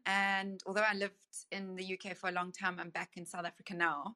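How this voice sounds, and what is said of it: South African accent. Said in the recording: “you can hear from my accent that I am South African”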